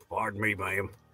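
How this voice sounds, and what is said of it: Put-on American country accent. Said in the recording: “the country accent ... It sounded like Beetlejuice”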